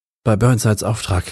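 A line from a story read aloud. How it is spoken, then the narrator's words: Panting. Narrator (German): keuche ich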